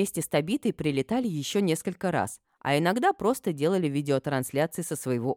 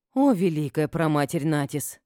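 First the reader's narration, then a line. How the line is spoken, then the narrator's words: Sighing. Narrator (Russian): вздохнула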